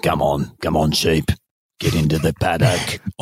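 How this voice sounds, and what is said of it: Russell Crowe impression. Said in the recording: “It could speak in Russell Crowe's voice as it rounds up the sheep.”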